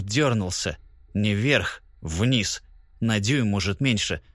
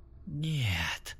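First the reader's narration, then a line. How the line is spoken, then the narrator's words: Whisper. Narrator (Russian): прошептал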